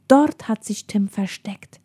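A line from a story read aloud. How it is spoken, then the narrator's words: Female whisper. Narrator (German): flüsterte sie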